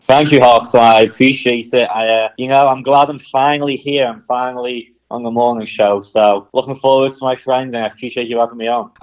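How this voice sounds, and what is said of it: Noticeable accent. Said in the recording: “get ready for this accent. You're going to love it.”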